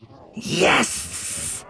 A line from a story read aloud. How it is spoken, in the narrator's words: hissed Bosk gleefully